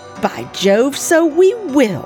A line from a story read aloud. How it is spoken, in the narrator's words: exclaimed my father